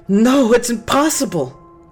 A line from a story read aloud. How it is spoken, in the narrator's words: Clara screamed